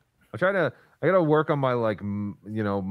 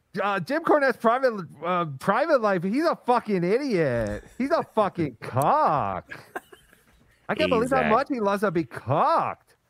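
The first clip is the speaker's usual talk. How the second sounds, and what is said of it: Imitates another person's voice. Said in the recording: “my solo Brennan, like when he's not so, like, animated. That part of the impersonation is hard.”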